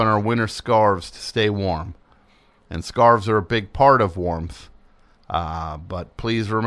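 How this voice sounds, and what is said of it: Usual voice. Nothing is said of it.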